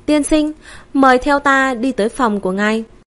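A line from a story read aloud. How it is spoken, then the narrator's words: Smiling, polite. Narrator (Vietnamese): Trưởng quỹ mỉm cười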